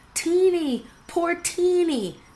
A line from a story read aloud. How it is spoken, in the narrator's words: gasped her horrified sisters